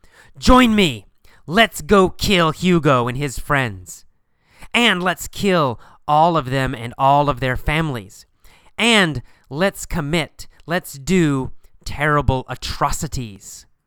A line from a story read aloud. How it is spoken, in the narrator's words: He yells at them and says